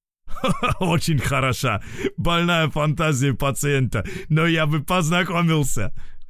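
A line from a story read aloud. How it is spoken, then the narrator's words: Chuckling. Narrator (Russian): хохотнул Вейлоян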